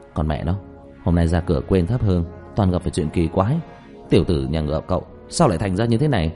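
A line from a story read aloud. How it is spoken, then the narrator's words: Muttering. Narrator (Vietnamese): Diệp Thiếu Dương lẩm bẩm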